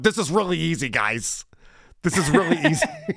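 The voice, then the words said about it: Imitates another person's voice. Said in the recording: “I can't do a Voss impression. Maybe you can. I can only imagine Voss going,”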